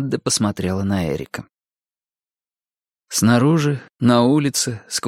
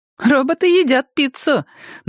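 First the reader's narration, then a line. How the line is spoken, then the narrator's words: Pleased remark. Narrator (Russian): довольным голосом заметила Мадда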